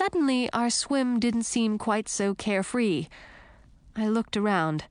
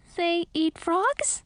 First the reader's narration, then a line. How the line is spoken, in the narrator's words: I squeaked